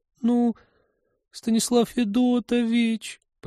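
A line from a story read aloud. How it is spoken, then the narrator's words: Penitent whine. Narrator (Russian): покаянно заскулила она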